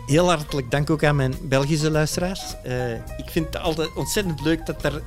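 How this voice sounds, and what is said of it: Put-on Flemish accent. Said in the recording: “I'm going to speak a little bit in their accent ... I've got a few people from Flanders, from Belgium”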